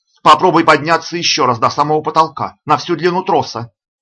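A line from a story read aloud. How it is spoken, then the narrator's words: Shouted. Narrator (Russian): подумала она и прокричала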